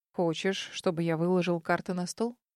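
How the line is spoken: Calm reply. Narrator (Russian): Наконец спокойно отозвался он

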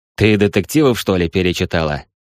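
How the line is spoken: Scoffing snort. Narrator (Russian): хмыкнул Михаил

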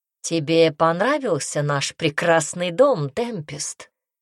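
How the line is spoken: Plain. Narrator (Russian): спросил он

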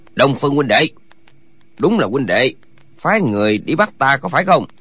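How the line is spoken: Hoarse, powerful, echoing voice. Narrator (Vietnamese): Giọng nói khàn khàn nhưng nội lực sung mãn, một câu nói ra trong đại điện hồi âm dội lại, hiển nhiên rất là oai mãnh

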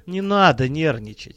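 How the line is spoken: Gentle, affectionate. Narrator (Russian): ласково сказал незваный гость

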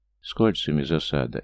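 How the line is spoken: Displeased muttering. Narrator (Russian): недовольно пробормотал Георгий

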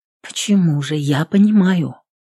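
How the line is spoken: Soft reply. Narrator (Russian): мягко ответила Магнесса

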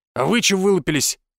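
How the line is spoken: Barked. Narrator (Russian): гаркнул он

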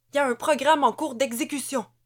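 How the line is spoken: Soldier exclaiming. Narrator (French): s'écria un soldat

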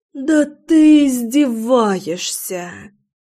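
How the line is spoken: Disappointed groan. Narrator (Russian): Застонала я после того, как попробовала коктейль и поняла, что он оказался безалкогольным

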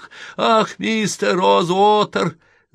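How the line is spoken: Sobbing. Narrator (Russian): зарыдала она

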